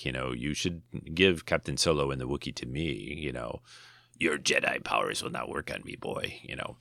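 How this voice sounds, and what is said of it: Imitating Star Wars scene voices. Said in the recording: “my imitating of different scenes from Star Wars”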